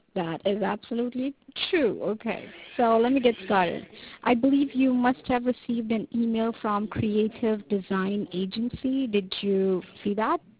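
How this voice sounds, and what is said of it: Slight foreign accent. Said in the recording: “you have a little accent”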